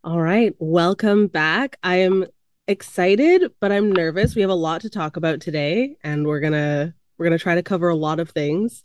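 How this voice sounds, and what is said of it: Hoarse, congested voice. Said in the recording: “If I'm a little bit hoarse, I'm just recovering from COVID ... a little bit nasty sounding ... if I'm a little bit congested”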